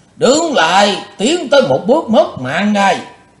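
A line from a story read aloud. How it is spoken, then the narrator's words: Thunderous shout. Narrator (Vietnamese): Lão quát như sấm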